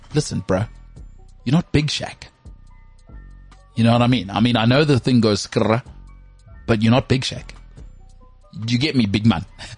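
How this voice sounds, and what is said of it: Put-on North London accent. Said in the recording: “with the North London accent ... your accent”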